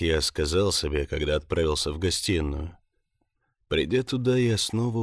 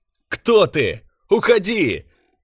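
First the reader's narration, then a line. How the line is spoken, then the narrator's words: Frightened shout. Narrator (Russian): Закричал я испуганно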